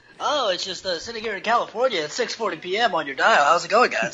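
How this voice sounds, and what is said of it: Radio DJ drive-time voice. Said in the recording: “That was a good radio voice ... You did kind of have that drive time voice.”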